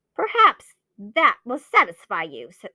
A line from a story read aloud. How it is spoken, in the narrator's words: snarled Bellingham, with hate and fear